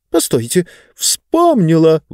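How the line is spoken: Sudden exclamation. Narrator (Russian): вдруг воскликнула книга

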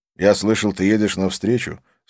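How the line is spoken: Plain. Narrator (Russian): сказал Абдулла

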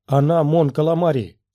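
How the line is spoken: Desperate shout. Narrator (Russian): с отчаянием в голосе крикнул Оби-Ван

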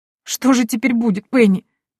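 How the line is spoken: Sobbing cook. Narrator (Russian): всхлипнула повариха

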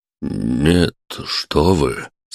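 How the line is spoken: Embarrassed mumble. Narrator (Russian): смущенно пробормотал он

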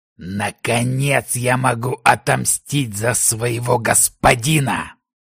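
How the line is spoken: Growl through mask. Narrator (Russian): прорычал враг в маске демона

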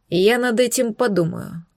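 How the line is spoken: Dry reply. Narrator (Russian): сухо откликнулся князь

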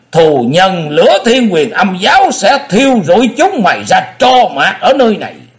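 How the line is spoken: Shout from outside. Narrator (Vietnamese): Vị đầu thái tử đứng bên ngoài thét lên

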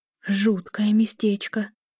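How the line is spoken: Frightened whisper. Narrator (Russian): прошептала Эля, ощущая себя жертвой, загнанной в ловушку

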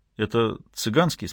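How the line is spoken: Plain. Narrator (Russian): спросил Глинский

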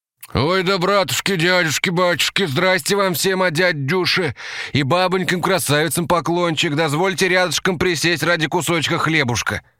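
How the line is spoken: Slurred wail in pain. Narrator (Russian): завопил он невнятно из-за боли в челюсти

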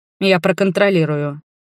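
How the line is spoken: Dry promise. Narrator (Russian): пообещал Валарье сухо

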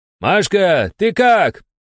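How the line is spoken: Man shouting from crowd. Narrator (Russian): крикнул из толпы муж одной из только что обработанных женщин

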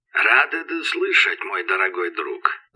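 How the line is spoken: Creaked metallically. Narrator (Russian): проскрипел Железный Мэт

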